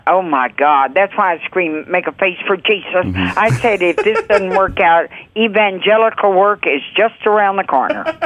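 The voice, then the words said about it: Texas accent. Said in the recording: “I love your Texas accent.”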